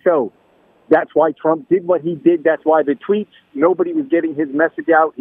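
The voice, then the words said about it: New York accent. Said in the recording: “I'm from New York originally, if my accent doesn't come through on the radio. ... It does, trust me.”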